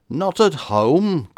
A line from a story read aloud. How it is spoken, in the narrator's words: cried the vibrant voice